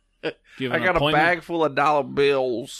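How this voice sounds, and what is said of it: Put-on Alabama accent. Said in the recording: “We pretty much nailed the Alabama accent.”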